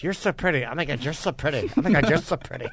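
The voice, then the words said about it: Gushing mimicry of women complimenting. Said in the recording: “Here's my impression of what was going on for the last 15 minutes.”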